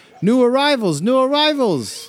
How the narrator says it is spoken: shout to others

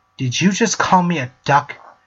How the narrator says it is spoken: She snarled

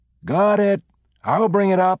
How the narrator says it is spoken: someone called out

